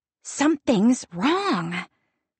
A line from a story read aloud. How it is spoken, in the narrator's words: Gwenna hisses at me